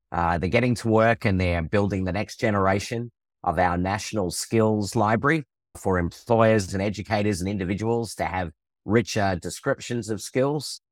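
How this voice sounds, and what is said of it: Australian accent. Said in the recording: “I have an Australian accent.”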